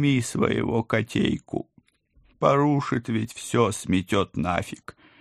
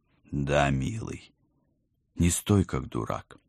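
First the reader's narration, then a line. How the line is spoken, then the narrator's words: Tender, smiling. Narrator (Russian): нежно улыбнулась я любимому мужу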